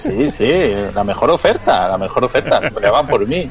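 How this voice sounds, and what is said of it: Put-on Galician accent. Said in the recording (Spanish): “y encima con acento gallego.”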